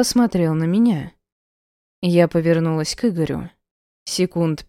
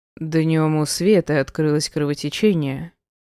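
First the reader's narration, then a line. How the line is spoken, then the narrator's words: Flat, even. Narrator (Russian): сказал Игорь ровным голосом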